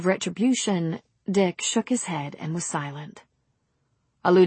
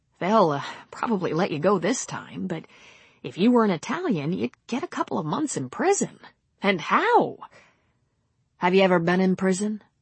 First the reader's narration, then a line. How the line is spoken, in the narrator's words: Swanson laughed